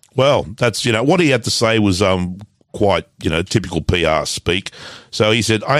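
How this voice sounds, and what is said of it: Usual voice. Nothing is said of it.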